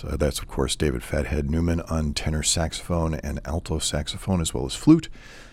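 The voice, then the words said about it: Jazz radio announcer voice. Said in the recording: “my jazz announcer voice”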